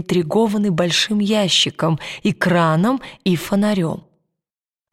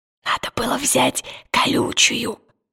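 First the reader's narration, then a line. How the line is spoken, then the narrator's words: Whisper. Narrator (Russian): прошептал Пантелеймон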